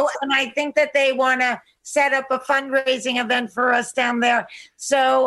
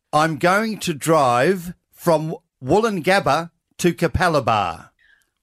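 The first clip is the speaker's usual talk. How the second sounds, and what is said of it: Fairly good put-on Australian accent. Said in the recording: “your best attempt at an Australian accent ... That's not bad. Wow, nice job.”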